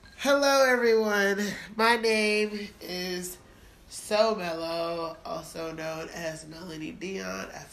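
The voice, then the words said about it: Sick, congested voice from a cold. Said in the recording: “I sound so terrible. I'm fighting a cold... I've been sick all week.”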